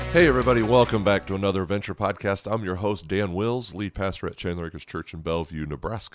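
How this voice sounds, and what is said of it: Slightly hoarse voice. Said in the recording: “My voice is a little hoarse today. I'm dealing with some allergies... my voice, of course, is a little hoarse from that as well”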